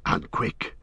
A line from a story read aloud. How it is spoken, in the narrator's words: Sam panted